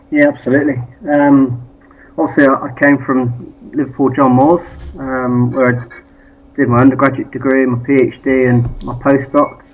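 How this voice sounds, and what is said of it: Local British accent. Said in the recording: “is actually a bit more local, which you'll guess from his accent”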